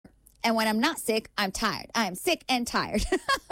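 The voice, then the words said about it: Imitates another person's voice. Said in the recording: “my best impression of that particular clip... a little bit of acting”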